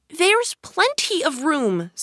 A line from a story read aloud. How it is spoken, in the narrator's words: said Alice indignantly